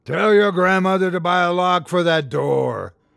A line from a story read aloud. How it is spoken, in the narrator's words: roared Mulek, relishing the freedom of his true form